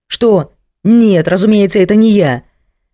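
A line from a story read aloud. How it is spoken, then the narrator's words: Barked. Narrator (Russian): рявкнул он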